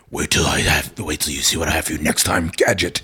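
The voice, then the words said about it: Low-pitched character voice. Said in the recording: “do that low voice”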